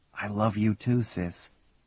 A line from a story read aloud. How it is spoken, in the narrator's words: Grinning, Marty whispered back